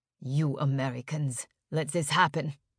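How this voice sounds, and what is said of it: Thick German accent. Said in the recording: “He was speaking English, but with a thick German accent.”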